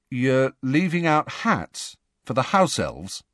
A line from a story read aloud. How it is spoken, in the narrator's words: said Ron slowly